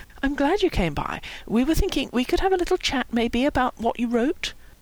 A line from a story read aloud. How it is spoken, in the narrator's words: Howie said gently